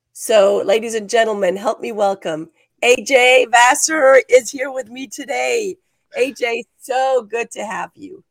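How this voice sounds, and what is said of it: Slightly raspy voice. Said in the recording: “my voice is a little raspy today, so forgive my raspiness”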